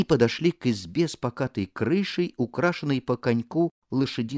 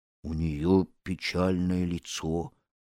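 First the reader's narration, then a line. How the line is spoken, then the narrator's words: Muttering leopard. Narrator (Russian): пробормотал леопард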